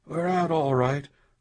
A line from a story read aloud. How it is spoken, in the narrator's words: Lawton said hoarsely